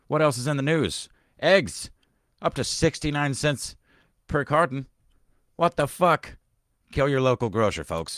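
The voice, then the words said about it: Old-timey 1920s newsreel announcer voice. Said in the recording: “do an old newsy voice ... this is 1922 news newsy here talking”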